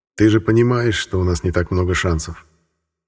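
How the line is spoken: Asked gently by an elder. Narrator (Russian): Как-то ласково спросил у меня старший Банио

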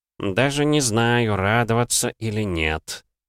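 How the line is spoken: Displeased mutter. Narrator (Russian): недовольно пробормотал Сандаль

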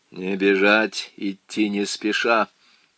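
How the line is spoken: Quiet. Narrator (Russian): тихо проговорил Коттон

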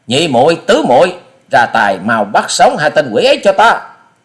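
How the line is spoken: Angry command. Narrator (Vietnamese): Thiếu nữ áo xanh giận dữ quát

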